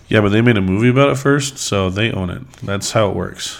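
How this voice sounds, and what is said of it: Voice still affected by a cold. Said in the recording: “my voice is coming back from a recent cold”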